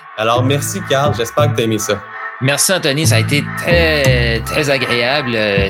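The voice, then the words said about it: New Brunswick French accent. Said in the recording (French): “moi, je suis originaire du Nouveau-Brunswick. C'est de l'accent.”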